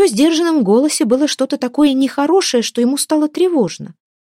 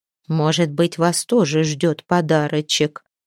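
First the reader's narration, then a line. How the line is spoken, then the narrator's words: Old woman's mutter. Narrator (Russian): пробормотала какая-то старуха из угла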